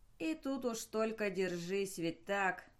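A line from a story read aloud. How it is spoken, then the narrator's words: Angry question. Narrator (Russian): зло спросил он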